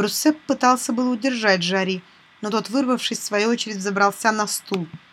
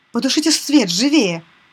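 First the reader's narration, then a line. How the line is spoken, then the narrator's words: Shouted. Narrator (Russian): крикнул Де Бруссеп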